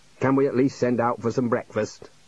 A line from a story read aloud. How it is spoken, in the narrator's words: grumbled the dean